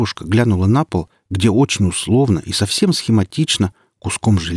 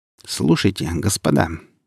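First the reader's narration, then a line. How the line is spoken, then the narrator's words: Displeased grumble. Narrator (Russian): недовольно проворчала сталкер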